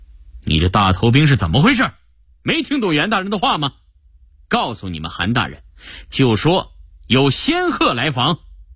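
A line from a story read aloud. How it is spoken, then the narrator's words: Impatient, sudden sharpness. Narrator (Chinese): 梁廷南可是有点不耐烦，突然厉声道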